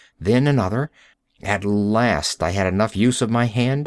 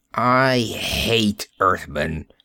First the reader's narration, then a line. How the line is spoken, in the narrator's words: he spat out